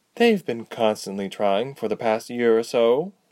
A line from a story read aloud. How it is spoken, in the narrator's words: Ladala sighed